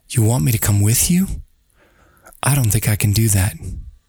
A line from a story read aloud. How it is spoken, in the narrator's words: Timidly, Astrid spoke